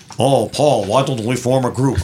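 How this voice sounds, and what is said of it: Imitates another person's voice, badly. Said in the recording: “I can't do impersonations of anybody. It was terrible.”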